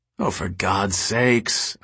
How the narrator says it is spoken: Alicia moaned

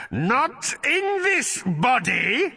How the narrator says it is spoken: screeched the creature

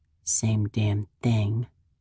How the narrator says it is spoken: I mumble

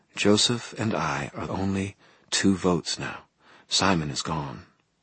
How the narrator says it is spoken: Martha said gently

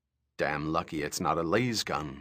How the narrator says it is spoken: Mirbella said

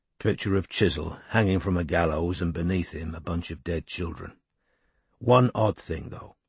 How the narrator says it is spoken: Strike said quietly

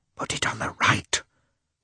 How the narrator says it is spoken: whispered Oblonsky to Lievin

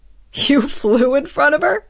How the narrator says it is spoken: Jaeger laughed

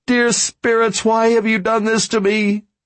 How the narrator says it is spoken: She cried in choking sobs

